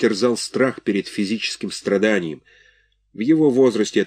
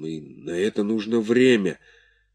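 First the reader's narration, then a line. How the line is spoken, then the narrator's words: Hoarse, after a pause. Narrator (Russian): Он помедлил и добавил охрипшим голосом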